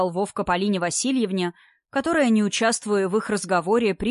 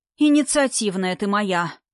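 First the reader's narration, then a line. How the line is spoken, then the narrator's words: Sighing. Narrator (Russian): вздохнул Вовка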